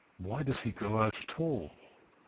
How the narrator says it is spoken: Wild Eve whispered

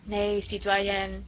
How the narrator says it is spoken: said dryly and relentlessly

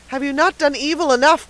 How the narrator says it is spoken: cried the peddler, regaining his firmness

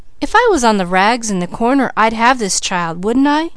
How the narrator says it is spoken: scoffed Peaches

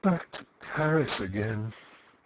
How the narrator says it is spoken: she murmured in a voice that was nearly a sigh

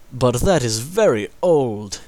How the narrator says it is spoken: exclaimed his father

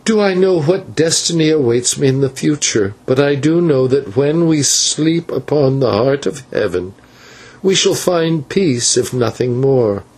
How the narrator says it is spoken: added with a sigh

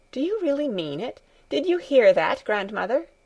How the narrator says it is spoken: she called out

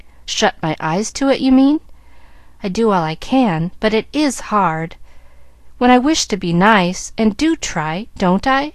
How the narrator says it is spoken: asked Molly

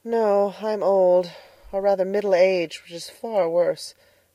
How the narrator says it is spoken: sighed Miss Lavendar

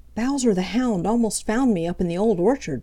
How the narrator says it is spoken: panted Peter

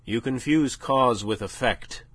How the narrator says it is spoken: said

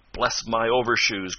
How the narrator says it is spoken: cried Mr

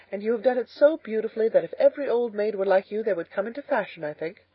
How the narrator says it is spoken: laughed Anne

